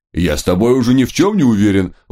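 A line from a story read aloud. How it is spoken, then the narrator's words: Howling. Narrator (Russian): взвыл Центурион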